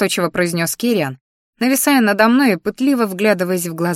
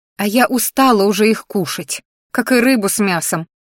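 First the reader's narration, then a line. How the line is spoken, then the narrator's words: Snorting. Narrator (Russian): фыркнула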